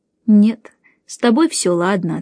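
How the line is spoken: Plain. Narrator (Russian): ответила она

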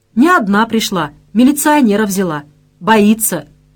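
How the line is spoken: Loud announcement. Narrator (Russian): громко объявил цимбал

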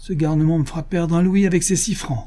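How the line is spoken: Exclamation. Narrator (French): s'écria-t-il

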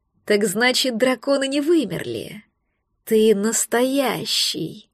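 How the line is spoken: Awed, ecstatic whisper. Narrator (Russian): В благоговейном восторге прошептал маг

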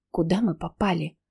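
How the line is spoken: Whispered question. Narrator (Russian): шепотом поинтересовалась я у Ники

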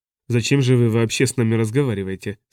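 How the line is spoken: Plain. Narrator (Russian): спросил Бёрнс

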